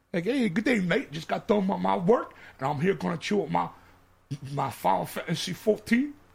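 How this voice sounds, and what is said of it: Over-the-top English Australian accent. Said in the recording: “That was me English, hey, governor. ... like English Australian. ... That's the bad English accent.”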